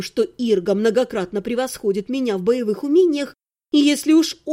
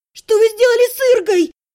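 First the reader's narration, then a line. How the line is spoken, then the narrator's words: Furious scream. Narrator (Russian): завопила я, готовая здесь же, на месте, пустить бандитов на кровавые ленточки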